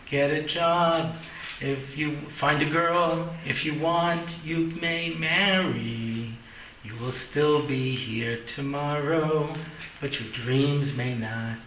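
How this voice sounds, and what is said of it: Sung imitation of a singer. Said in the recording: “my Cat Stevens imitation”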